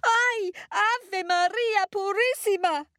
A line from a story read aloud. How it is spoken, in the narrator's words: she screamed